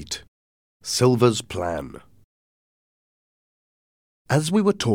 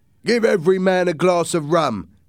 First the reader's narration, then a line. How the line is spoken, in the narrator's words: Captain Smollett shouted